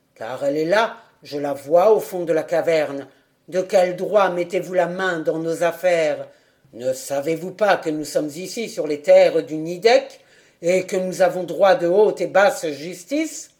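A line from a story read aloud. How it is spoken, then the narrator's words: Young man, harsh tone. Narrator (French): Le jeune homme d'un ton rude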